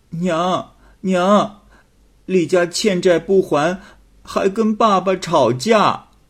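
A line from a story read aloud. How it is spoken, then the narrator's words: Crying. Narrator (Chinese): 阿小哭着跑回来，说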